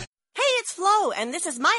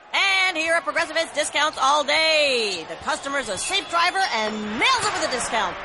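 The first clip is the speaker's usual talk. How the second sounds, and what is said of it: Excited play-by-play sports announcer voice. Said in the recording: “my impression of a play-by-play announcer who loves to save money”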